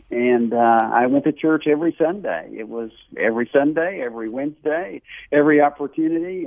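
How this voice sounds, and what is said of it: Southern US accent. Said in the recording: “I grew up in the South. You can probably tell my accent in North Carolina”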